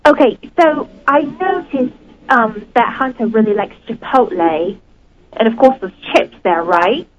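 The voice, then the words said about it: Speaks with an attractive accent. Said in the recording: “I really like that accent. I find that very attractive. ... You think it's attractive, the accent?”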